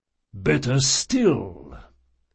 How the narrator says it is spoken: the priest rumbled

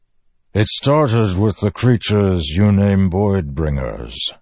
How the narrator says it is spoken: the Stormfather said, voice rumbling and low, distant

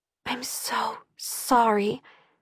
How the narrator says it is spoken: I whispered again

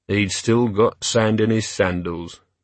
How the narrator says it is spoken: murmured Vimes

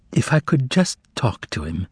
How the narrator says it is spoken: interjected the prisoner wistfully

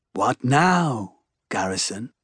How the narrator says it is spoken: Ixion murmurs

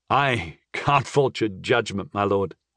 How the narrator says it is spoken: I chuckled

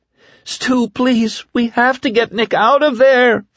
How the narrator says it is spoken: Fran screamed

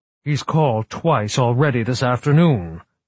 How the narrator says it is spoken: the director snapped

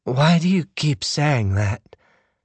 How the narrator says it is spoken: Her voice was thick

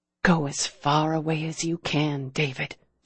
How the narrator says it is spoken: she whispered

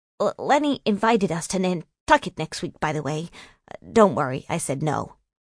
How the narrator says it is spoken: Hoping to get back into her good graces, he mumbled

